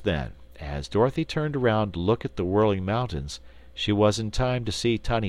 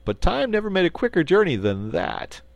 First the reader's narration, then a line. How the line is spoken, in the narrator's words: laughed Button-Bright